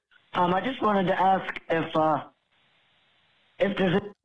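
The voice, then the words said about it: Hoarse voice. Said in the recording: “I'm hoarse because I'm sick.”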